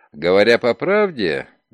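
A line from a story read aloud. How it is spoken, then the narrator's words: Laughing. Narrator (Russian): Ноултон засмеялся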